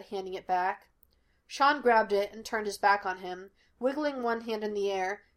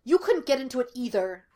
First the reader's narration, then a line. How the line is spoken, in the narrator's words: Gus snapped